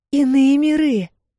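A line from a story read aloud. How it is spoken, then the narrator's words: Exclaimed. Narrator (Russian): воскликнула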